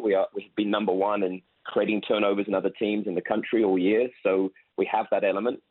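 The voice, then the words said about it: British accent. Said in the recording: “I hear the accent ... British.”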